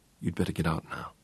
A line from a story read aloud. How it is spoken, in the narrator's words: Peter said quietly